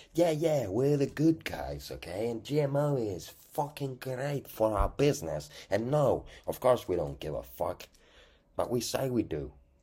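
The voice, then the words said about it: Put-on accent. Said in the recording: “Why did I just say that with this accent?”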